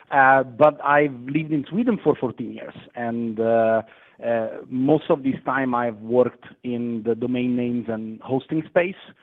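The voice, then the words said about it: Italian accent. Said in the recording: “I'm Italian originally, as probably you could have told from my accent”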